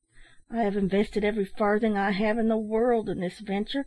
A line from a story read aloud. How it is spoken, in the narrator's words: continued Captain Bunting sadly